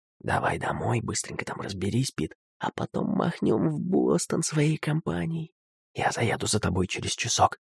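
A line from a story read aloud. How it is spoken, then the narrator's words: Whispered. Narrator (Russian): какой-то парень шептал Китингу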